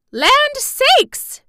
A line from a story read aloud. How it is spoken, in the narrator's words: cried Aunt Em impatiently